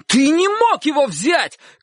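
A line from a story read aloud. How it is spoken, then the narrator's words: Shout. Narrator (Russian): крикнул Чик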